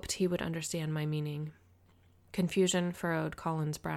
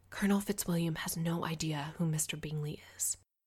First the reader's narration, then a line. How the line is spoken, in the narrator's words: whisper